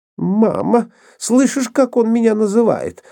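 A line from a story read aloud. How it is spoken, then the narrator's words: Whining, feigned fright and offense. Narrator (Russian): захныкала Нора, притворяясь испуганной и оскорбленной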